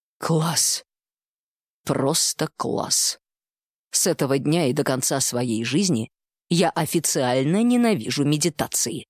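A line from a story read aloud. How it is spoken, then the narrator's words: Muttered. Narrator (Russian): пробормотал Тишин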